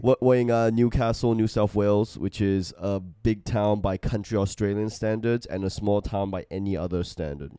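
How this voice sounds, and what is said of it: Stuffed nose, Australian accent. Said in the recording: “I'm having a bit of a stuffed nose, and also I've got a weird accent”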